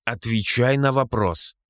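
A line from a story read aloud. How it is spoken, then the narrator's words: Irritated young woman's growl. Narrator (Russian): раздраженно рыкнула девушка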